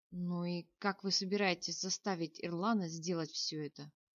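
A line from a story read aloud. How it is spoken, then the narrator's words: Weary question. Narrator (Russian): устало спросил принц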